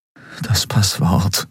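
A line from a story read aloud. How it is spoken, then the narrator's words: Concentrated murmur. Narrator (German): murmelte er, darauf konzentriert sich zu erinnern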